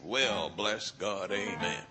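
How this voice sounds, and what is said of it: Oklahoma accent imitating Ken Copeland. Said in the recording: “Oklahoma accent ... he incorporated the accent too”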